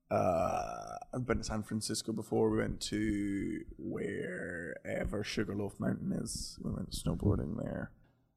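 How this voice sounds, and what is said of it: British accent. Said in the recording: “more comfortable than most British acts who come over here ... I knew my accent was fine ... sometimes I talk a little bit faster”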